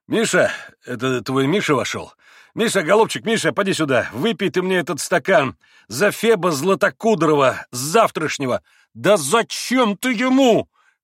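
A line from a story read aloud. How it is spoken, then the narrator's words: Irritated shout. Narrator (Russian): крикнул Петр Ильич раздражительно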